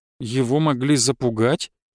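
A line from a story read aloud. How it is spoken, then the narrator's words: Uncertain answer. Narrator (Russian): неуверенно ответила Варвара Александровна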